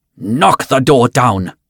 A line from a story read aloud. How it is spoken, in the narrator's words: spat